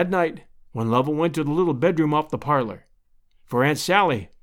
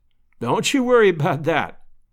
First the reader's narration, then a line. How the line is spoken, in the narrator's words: laughed Lovell